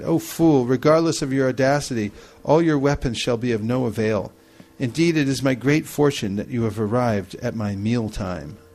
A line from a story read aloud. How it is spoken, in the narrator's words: Lavanasara simply laughed with derision and said